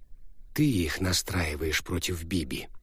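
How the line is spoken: Quiet. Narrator (Russian): тихо произнес Розен

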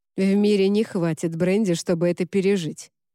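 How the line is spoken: Grumbling. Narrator (Russian): проворчал Уорд

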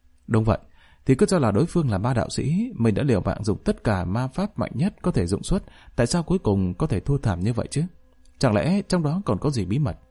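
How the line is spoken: Lowered voice. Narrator (Vietnamese): Dung Băng hạ giọng nói

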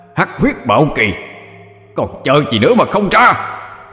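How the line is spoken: Yelling upward. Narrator (Vietnamese): Hắn nhìn lên cao mà gào lên

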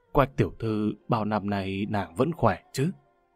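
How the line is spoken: Gentle. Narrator (Vietnamese): Hoàng đế nhẹ nhàng nói

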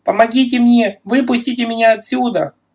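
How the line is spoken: Screaming. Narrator (Russian): она опять завопила, вопль перешел в какое-то жуткое бульканье и прервался

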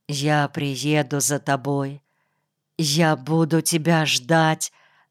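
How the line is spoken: Quiet. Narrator (Russian): тихо сказал ей

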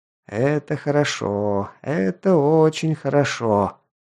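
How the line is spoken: Odd drawl. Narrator (Russian): как-то протянул тот

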